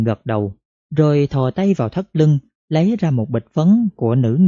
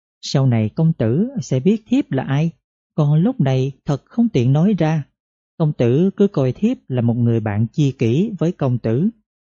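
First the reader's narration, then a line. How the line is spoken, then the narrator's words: Sweet tinkling murmur. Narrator (Vietnamese): Nàng nhãn miệng cười, rồi thổ thẻ nói bằng giọng oanh vàng, trông như là ngọc pha lê va vào nhau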